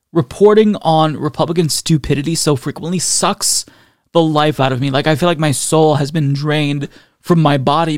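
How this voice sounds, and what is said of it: Tired, exhausted-sounding voice. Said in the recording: “You can probably hear it in my voice. I'm exhausted.”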